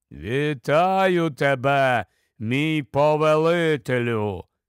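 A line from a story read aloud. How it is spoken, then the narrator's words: Deep voice. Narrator (Ukrainian): сказала голова густим голосом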